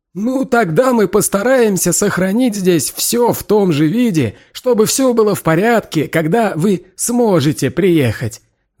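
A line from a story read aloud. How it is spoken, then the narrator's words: Declaring. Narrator (Russian): заявил Гомер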